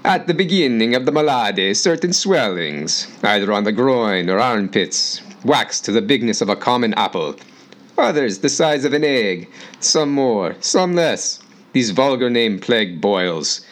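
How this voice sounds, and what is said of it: Put-on old Italian accent. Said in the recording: “I'll do my best 14th century Italian accent”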